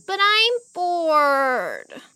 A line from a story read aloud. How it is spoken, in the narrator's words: Magda whined